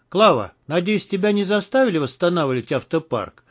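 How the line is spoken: Cheerful question. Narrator (Russian): весело спросил Герман

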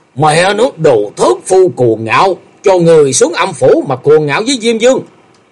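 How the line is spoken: Furious roar. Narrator (Vietnamese): Gã tiêu sư điên tiết gầm lên

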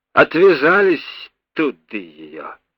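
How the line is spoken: Cheerful booming voice. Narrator (Russian): весело прогудел голос вахтенного

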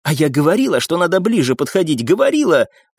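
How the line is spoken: Hissing, working herself up. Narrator (Russian): продолжила шипеть и накручивать себе рыжеволосая

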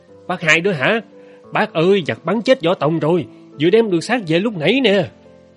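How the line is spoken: Man shouting out. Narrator (Vietnamese): người đàn ông đứng sau lái la lên

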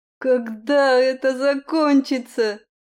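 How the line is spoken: Howling wail. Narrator (Russian): взвыла одна из лучниц

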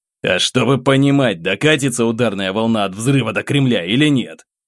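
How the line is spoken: Growled. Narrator (Russian): рыкнул я

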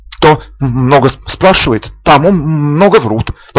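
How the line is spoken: Halting, stammering. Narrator (Russian): повторил Крабат, запинаясь

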